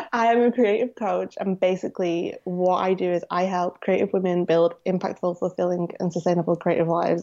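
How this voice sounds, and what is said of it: Strong Manchester English accent. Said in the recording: “I live in Manchester. That's why I kind of sound like Sarah, but my accent is stronger and probably worse.”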